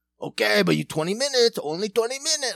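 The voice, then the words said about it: Aggressive, over-the-top put-on accent. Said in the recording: “crazy weird accent ... so aggressive, so over the top”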